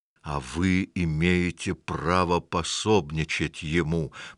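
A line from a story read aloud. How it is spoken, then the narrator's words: Hissing. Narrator (Russian): прошипел Максвелл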